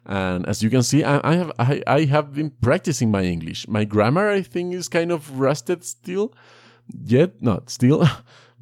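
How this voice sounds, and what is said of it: Non-native English accent. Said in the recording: “I hope that my accent is not too annoying for you. I'm trying to improve it”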